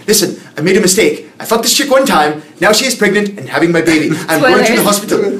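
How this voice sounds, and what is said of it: Put-on Welsh accent. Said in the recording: “That's Welsh ... his Welsh accent ... It's like a weird Welsh vein accent.”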